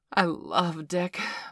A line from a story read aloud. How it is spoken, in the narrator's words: Bailey declared